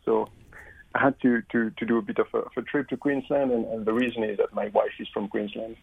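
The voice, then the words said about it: French accent. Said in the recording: “as you make it from my accent, I'm actually French originally”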